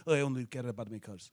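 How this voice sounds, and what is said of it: Deliberately bad Italian accent. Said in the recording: “a bad Italian accent, so I can do my bad Italian accent”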